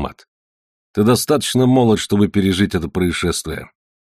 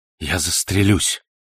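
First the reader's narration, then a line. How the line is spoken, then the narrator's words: Furious whisper. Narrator (Russian): яростно прошептал клерк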